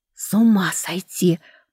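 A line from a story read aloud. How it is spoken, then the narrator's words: Whisper. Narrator (Russian): прошептала рядом Лидия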